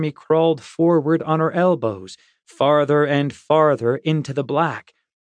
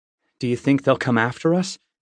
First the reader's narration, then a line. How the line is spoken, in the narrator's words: I said, glancing nervously